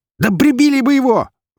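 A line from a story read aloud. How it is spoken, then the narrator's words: Shrill squeal from floor. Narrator (Russian): взвизгнул Даниил с пола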